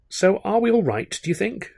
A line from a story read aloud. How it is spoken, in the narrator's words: she said, looking up at me rather timidly, it seemed, rather apprehensively